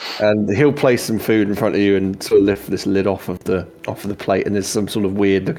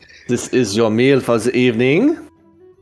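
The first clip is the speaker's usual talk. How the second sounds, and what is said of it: Put-on French accent. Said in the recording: “God, French accent. ... I'm not very good at French. ... This is a very good French accent. ... my outrageous French accent”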